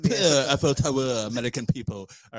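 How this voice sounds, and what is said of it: Put-on French accent. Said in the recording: “my bestest French impersonation”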